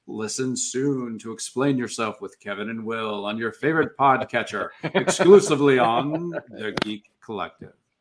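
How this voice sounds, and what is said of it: Sultry radio announcer voice. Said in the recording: “Nice radio voice. ... I thought maybe we should go sultry”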